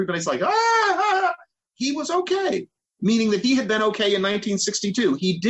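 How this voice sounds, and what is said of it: Usual voice. Nothing is said of it.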